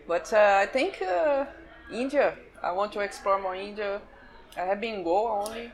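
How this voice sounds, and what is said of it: Foreign accent in English. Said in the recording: “Sorry, did you say India? ... Not ninja. ... Sorry, my accent.”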